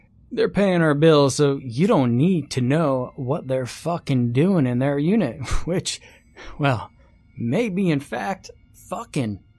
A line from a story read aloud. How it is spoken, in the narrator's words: Al laughed